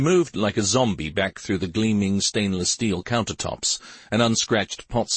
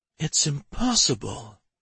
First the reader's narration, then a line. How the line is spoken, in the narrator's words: she whispered